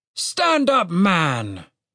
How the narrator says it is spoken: the major commanded cheerfully

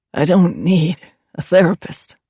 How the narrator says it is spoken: Adam said through clenched teeth

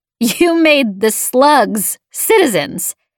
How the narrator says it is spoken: Braid said, laughing

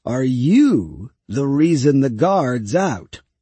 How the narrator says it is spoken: said Govar, in the slow voice of one who nevertheless gets there in the end

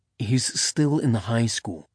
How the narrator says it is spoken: Zev said quietly

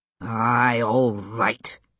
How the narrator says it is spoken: he muttered ungraciously to God

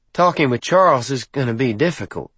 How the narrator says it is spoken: Sage said dryly

